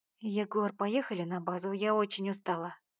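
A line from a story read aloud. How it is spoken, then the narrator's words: Whispered. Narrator (Russian): прошептала Карина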